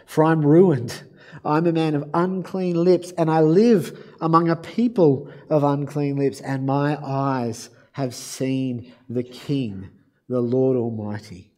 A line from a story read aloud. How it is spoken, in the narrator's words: I cried